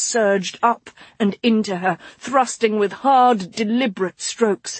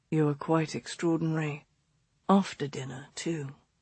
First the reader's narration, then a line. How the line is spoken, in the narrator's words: he said, his voice low against her ear